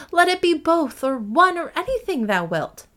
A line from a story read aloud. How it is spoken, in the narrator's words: cried Catherine, losing patience